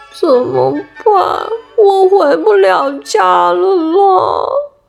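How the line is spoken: Tearful, miserable. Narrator (Chinese): 陶乐斯哭丧着脸

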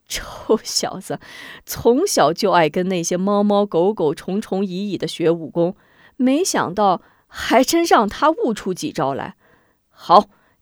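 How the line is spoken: Old woman, laughing heartily. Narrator (Chinese): 康婆婆也咯咯大笑

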